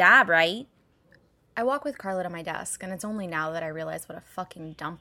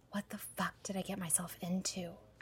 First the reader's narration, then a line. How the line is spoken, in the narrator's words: I whisper to myself